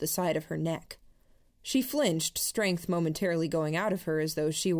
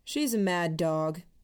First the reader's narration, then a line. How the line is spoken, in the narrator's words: said, in the most casual tone I could manage